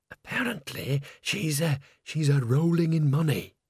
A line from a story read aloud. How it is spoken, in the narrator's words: whispered Bucket